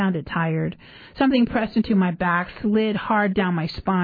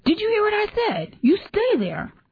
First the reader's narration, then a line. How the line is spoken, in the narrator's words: she yelled